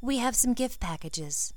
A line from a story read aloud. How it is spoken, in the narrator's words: Ginny said calmly